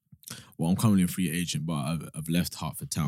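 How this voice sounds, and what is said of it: Put-on sexy voice. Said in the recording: “Why are you trying to do sexy voice, man?”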